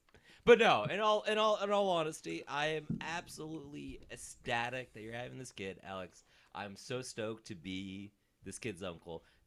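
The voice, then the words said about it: Boston accent. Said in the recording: “Being fully Boston ... I've lived in Texas most of my life, and I still live here, but somehow I have this accent.”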